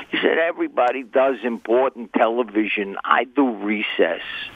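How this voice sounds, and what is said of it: Garry Marshall impression, Bronx accent. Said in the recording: “mimicking his famous Bronx accent.”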